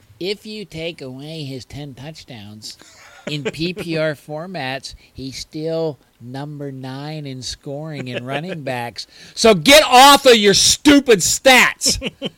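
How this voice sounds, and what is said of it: Nerdy character voice. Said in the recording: “I'm getting into my nerd voice.”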